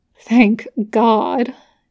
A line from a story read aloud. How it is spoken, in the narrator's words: Dean mutters